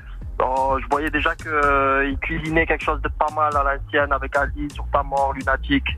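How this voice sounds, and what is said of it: Slight southern French accent. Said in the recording (French): “il y a un petit accent du sud”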